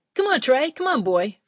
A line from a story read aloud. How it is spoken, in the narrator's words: Frankie hollered